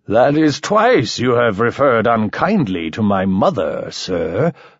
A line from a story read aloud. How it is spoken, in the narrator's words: slurred Mike